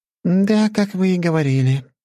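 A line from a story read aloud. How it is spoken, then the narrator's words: Sigh. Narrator (Russian): вздохнула она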